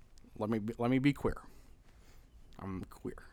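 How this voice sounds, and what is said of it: Barack Obama impression. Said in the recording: “this is Obama if he was queer ... do a Barack Obama impression”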